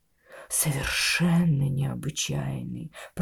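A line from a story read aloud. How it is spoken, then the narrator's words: Mumbled. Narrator (Russian): пробормотал я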